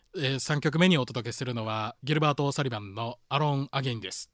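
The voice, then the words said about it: Imitates another person's voice. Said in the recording (Japanese): “モノマネ言うとかなんかことなかったかな、今挑戦してるモノマネ...あの細江さん、...太陽テクノレックス社長の細江さん”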